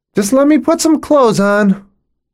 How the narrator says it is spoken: I hear Tabitha shout

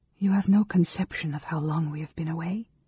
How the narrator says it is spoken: Amberyl said softly

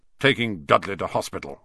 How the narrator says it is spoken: growled Uncle Vernon

